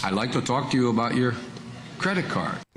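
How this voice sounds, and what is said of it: Poor put-on Indian accent. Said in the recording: “Does that sound like an accent? ... He's trying to do it. It wasn't a good Indian accent.”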